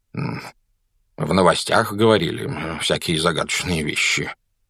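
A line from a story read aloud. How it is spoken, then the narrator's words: Muttered. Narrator (Russian): пробормотал мистер Дурсль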